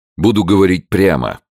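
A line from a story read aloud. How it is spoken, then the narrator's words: Curt, clipped general. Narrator (Russian): отрывисто произнес генерал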